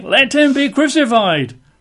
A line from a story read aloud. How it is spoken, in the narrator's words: they cried out all the more, saying